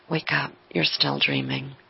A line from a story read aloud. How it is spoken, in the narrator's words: gently whispers